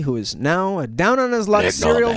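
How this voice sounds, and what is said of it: Rough gravelly imitated low voice. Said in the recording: “That was a pretty good imitation, I thought. ... it needed to be a little bit higher pitch. ... Yeah, he was rough and gravelly.”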